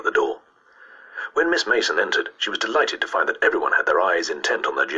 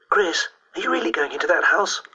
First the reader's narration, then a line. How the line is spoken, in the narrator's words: asked Dawn Sheehan breathlessly